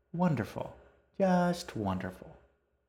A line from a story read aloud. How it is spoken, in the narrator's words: her daughter cheerfully echoed her